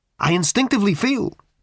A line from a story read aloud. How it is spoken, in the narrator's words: said the creature, urgently